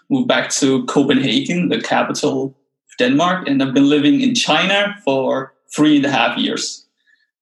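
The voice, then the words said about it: Slight foreign accent. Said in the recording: “you're not from the US. I could tell a little accent.”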